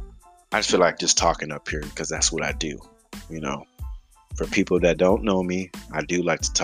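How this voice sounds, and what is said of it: Usual voice. Nothing is said of it.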